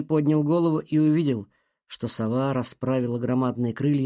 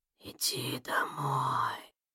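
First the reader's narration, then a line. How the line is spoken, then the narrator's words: Whispered again. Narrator (Russian): Снова прошептал голос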